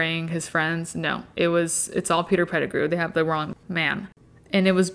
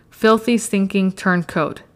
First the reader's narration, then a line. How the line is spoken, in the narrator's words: Hagrid said, so loudly that half the bar went silent